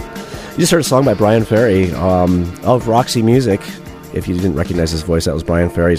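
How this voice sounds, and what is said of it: Deep congested baritone voice. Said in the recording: “pardon my baritone tone voice, I have a cold ... I kind of like my voice when I have a cold”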